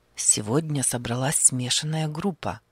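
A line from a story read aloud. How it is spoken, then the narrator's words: Hushed quiet speech. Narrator (Russian): заговорил он тихо, чтобы не разбудить солдата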